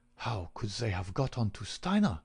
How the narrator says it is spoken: muttered

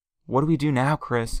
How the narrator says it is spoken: G-Mom asked, her voice somewhat shaken

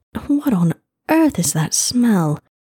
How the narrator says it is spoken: she choked out

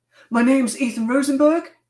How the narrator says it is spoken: he explained, nervously

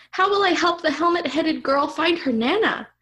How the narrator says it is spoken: Mark exclaimed

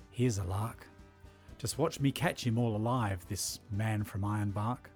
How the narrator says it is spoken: he whispered

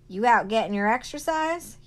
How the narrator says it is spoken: He hollered

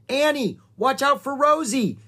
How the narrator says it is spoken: shouted Jack

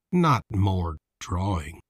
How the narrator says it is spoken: he said under his breath

